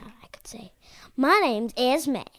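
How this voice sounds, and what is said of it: Sudden put-on accent. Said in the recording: “You got an accent, all of a sudden ... You were just talking normal 5 seconds ago.”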